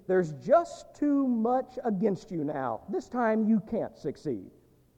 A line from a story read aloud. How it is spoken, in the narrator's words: They shout at me and plead